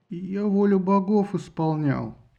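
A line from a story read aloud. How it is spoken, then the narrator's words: Mumbled. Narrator (Russian): промямлил было Парис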